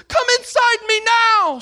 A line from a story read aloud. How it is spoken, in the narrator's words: She begged